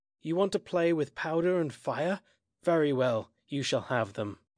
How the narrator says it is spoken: I exclaimed

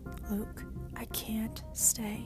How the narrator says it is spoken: I whispered

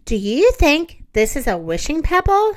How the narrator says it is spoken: he asked

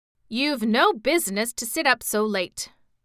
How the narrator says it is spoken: replied the steward gruffly

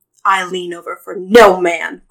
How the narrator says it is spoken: growled Glacian

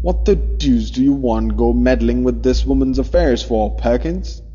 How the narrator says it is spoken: he said sharply

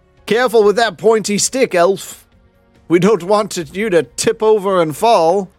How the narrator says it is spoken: One of them yells out

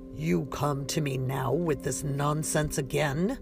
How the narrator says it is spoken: Mekio boomed

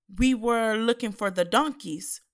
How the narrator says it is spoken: Saul replied

